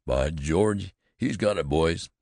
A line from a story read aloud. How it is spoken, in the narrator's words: exclaimed Jones